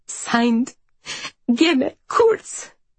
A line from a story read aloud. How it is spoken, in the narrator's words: she adds, her voice cracking